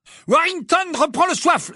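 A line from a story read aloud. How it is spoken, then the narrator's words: Exclaimed. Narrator (French): s'écria Lee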